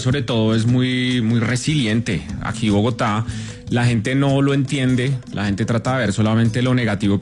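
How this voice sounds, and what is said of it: Bogotá cachaco Spanish accent. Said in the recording (Spanish): “ese acento que nosotros tenemos los cachacos ... un acento que está en vía de extinción”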